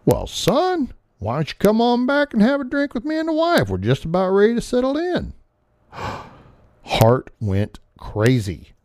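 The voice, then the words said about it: Put-on Southern Georgia-Alabama accent. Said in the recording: “in that Georgia, Alabama accent,”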